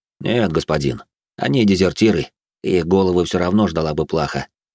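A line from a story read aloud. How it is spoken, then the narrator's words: Calm soldier's reply. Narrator (Russian): спокойно ответил бравый вояка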